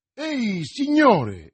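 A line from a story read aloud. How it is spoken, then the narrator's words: Exclaimed. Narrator (Italian): esclamò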